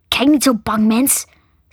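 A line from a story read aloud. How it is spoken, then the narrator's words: Hissing voice. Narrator (Dutch): siste een stem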